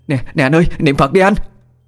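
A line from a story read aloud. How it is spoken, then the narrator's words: Woman shouting urgently. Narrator (Vietnamese): Không chần chừ, chị Út hét lên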